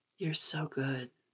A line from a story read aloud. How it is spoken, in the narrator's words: Pisang whispers